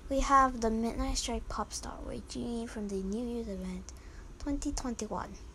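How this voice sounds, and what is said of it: Speaking in an odd accent. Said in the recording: “I don't know what's wrong with my accent. ... Sorry about the accent.”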